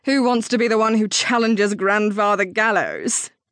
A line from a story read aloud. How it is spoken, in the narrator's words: Isolde replied with a laugh